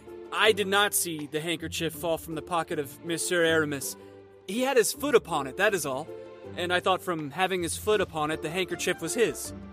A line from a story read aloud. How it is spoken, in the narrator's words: hazarded D'Artagnan timidly